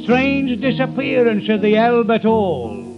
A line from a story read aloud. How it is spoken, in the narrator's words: shout